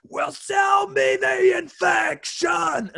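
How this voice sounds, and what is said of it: Terrible impression of a singer. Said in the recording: “that was a terrible impression”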